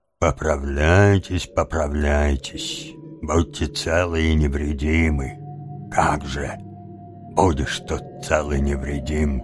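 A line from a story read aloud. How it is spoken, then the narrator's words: Muttered. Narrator (Russian): пробормотал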